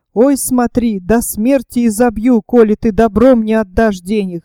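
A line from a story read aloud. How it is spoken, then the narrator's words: Plain. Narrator (Russian): сказал Игнатов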